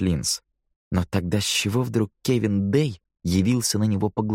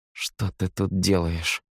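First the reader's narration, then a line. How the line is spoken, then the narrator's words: Muttered through numb lips. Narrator (Russian): процедил сквозь онемевшие губы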